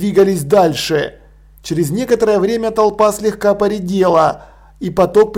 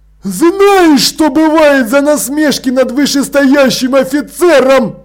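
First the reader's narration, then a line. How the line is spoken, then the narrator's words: Shrill squeal. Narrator (Russian): взвизгнул Страппи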